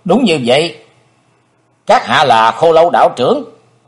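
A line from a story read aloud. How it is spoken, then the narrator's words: Cold. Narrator (Vietnamese): Chí Tôn lạnh lùng nói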